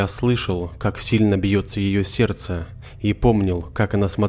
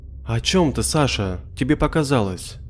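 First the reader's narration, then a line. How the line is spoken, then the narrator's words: Gentle, affectionate. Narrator (Russian): Ласково ответила мама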